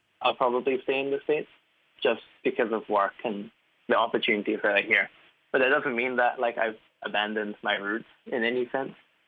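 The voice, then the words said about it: Somewhat American-sounding accent. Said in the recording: “my accent is probably somewhat American right now”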